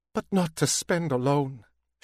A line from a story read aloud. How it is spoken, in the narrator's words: she said, pleading